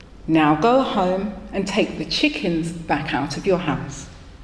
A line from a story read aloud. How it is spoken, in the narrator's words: The rabbi listened and calmly said